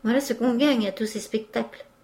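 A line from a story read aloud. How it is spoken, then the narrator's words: Exclamation. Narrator (French): s'écria M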